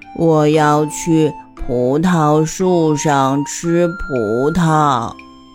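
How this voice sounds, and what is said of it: Very slow drawn-out speech. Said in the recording (Chinese): “它走路很慢很慢，比自己说话的速度还慢 ... 蜗牛用很慢很慢的声音说”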